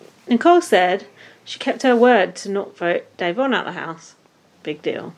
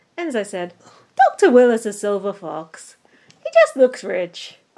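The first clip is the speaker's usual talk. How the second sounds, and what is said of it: Bad put-on Irish accent. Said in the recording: “we've got to do an Irish accent for Enzo ... my Irish accent is abysmal”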